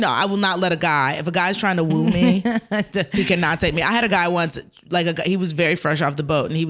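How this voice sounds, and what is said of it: Usual voice. Nothing is said of it.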